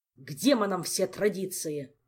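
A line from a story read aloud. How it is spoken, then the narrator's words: King barking angrily. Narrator (Russian): рявкнул король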